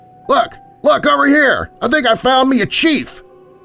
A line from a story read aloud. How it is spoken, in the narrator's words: his accomplice yelled out